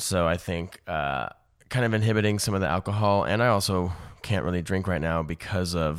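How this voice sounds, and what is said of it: Slightly hoarse, strained voice. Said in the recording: “if you can probably hear, my voice is a little hoarse ... I've got some strain”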